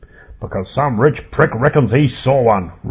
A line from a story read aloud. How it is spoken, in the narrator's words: roared Hillary